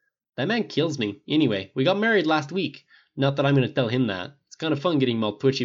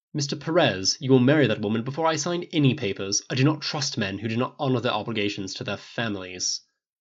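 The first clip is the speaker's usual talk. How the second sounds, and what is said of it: Cold, frosty Snape impression. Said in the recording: “intoned in what was surprisingly good English accent and a spot-on imitation of Snape at his frostiest”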